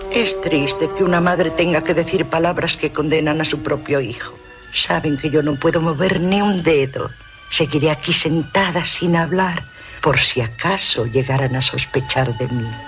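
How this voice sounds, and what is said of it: Man speaking in a woman's voice. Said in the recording (Spanish): “es una voz de mujer, pero el que está hablándose a sí mismo es Anthony Perkins, el actor”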